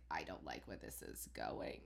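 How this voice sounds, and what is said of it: Creepy imitation of another person's voice. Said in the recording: “my Robert Durst impression ... It's freaky”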